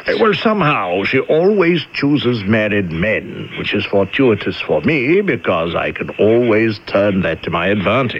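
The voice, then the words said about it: English accent. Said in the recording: “You've got that English accent”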